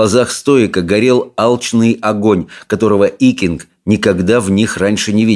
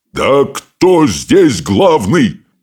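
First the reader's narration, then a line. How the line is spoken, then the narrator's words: Roaring. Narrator (Russian): взревел он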